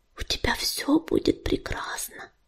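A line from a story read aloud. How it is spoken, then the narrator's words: Whisper. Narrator (Russian): шепнула она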